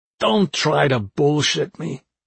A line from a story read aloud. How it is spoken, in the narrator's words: he growled